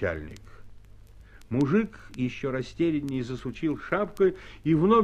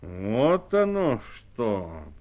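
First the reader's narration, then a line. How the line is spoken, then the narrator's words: Drawn-out drawl. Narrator (Russian): протянул начальник эскадрона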